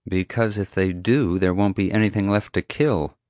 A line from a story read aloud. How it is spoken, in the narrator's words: Summer muttered under her breath